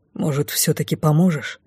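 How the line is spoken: Quiet question. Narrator (Russian): тихонько спросил Ли

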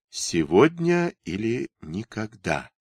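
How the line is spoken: Quiet, to oneself. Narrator (Russian): тихо сказал сам себе

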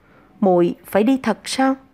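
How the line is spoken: Choked, trembling voice. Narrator (Vietnamese): Giọng nói như bị chôn trong yết hầu, phải dùng toàn sức lực toàn thân mới run rẩy phát ra thanh âm

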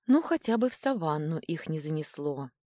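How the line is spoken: Sighing. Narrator (Russian): вздохнула я

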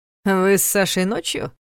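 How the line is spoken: Mocking question. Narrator (Russian): насмешливо переспросил Ваня

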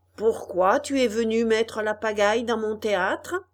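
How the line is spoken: Gruff deep voice. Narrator (French): demanda le marionnettiste à Pinocchio d'une grosse voix

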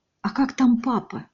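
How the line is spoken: Whispered. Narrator (Russian): прошептала Катя

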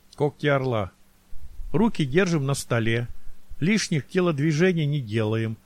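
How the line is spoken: Even voice. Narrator (Russian): ровным голосом произнес Максимов

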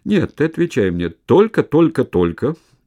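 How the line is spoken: Loud laughing. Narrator (Russian): Он захохотал

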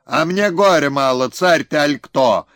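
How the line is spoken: Shouting. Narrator (Russian): закричал он

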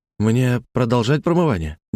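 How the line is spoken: Uncertain question. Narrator (Russian): неуверенно спросил Мануэль

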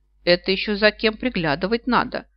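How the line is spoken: Snapping retort. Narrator (Russian): огрызнулась Александрит

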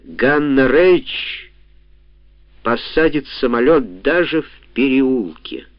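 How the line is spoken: Clipped, measured. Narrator (Russian): Гитлер отчеканил

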